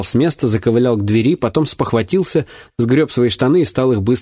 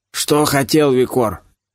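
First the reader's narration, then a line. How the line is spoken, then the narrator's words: Hoarse, creaky yet clear. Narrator (Russian): Голос его с просонья и от алкоголя был хриплым и скрипучим, однако он говорил осмысленно и четко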